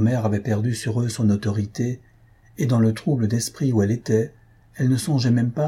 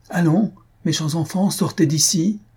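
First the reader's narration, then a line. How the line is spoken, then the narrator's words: Exclaimed. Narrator (French): s'écria Louise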